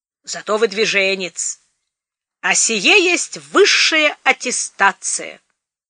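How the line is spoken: Bellow. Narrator (Russian): Бабосов гаркнул

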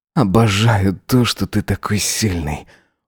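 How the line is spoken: Rapturous breathless exhale. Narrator (Russian): Выдохнул Эзра восторженно

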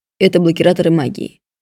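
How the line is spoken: Dry reply. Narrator (Russian): сухо ответил он

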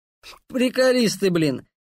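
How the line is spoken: Amused snort. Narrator (Russian): хмыкнул Дэн

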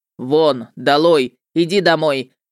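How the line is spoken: Barked. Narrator (Russian): рявкнул Любомир

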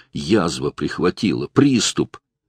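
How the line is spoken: Strained whisper. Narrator (Russian): Сдавленным голосом прошептал Владимир

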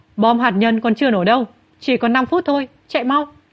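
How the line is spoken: Urgent shout. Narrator (Vietnamese): anh ta hét lên

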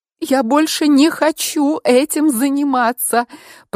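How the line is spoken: Wailing through sobs. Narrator (Russian): провыла я между всхлипами

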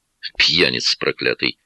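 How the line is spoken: Grumbled mutter. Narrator (Russian): буркнул Марк

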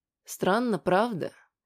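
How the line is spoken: Gentler voice. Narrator (Russian): заговорила более ласковым голосом Валентина Леонидовна

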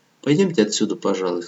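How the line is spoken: Plain. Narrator (Russian): сказал он

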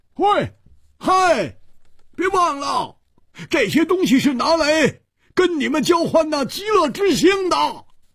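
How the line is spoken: Loud. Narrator (Chinese): 胡铁花大声地说

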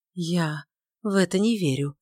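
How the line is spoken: Barely audible. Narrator (Russian): сказала она едва слышно

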